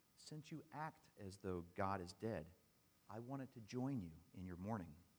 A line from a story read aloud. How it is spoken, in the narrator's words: She responded quite calmly